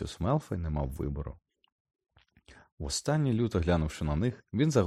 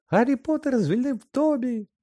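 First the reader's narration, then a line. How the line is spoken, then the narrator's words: Elf shrieking piercingly. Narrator (Ukrainian): Пронизливо заверещав ельф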